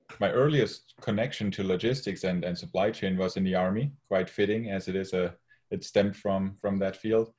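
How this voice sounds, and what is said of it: German accent. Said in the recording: “you can probably tell by my accent and my name, I'm from Germany originally”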